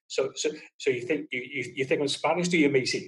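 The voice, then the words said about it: Put-on Scottish accent. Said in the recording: “Scottish accent”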